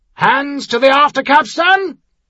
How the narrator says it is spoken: the captain shouted

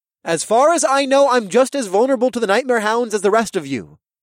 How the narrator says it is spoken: said in a clear voice that hid the fear pounding in my chest

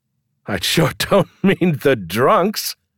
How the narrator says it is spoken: laughed again

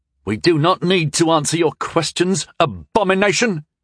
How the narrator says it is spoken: One of the younger men, about my age, spat

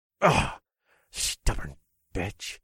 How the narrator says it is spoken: I muttered under my breath

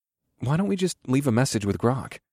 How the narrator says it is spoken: I asked in a quiet tone

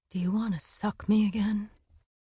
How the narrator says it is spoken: He whispered against her ear

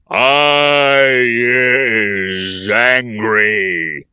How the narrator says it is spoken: he thundered

